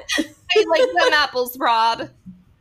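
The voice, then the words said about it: Weak attempt at Boston accent. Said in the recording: “I can't do Boston accent.”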